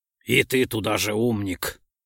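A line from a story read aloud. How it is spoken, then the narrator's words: Scoffing. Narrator (Russian): хмыкнул Ролдон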